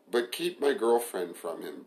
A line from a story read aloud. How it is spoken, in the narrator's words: Brent asked